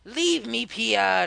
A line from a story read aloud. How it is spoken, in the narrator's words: he growled to me